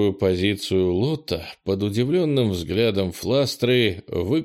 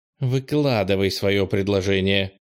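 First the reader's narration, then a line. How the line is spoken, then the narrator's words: Irritated female voice. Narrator (Russian): раздраженно сказала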